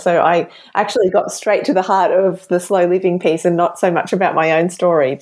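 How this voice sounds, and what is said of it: Thick Australian accent. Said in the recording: “my very thick Aussie accent”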